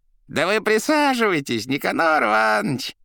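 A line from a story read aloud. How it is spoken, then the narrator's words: Unfazed shouting. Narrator (Russian): Нисколько не теряясь, орал гражданин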